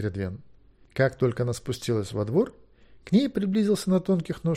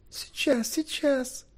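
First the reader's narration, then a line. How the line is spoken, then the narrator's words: Shouting. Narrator (Russian): закричала Кередвин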